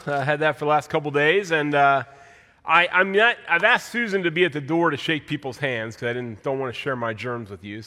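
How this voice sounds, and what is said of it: Congested, stuffy voice. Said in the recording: “You can probably tell I have a cold.”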